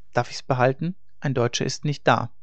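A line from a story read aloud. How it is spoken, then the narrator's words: Terse, calm boy. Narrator (German): Der Junge, der von wenig Worten war, sagte nur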